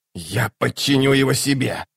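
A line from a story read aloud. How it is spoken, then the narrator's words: Hissing. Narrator (Russian): прошипел Локон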